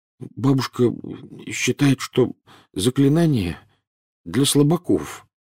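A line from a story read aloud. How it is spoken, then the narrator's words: Mumbled. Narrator (Russian): промямлил Невилл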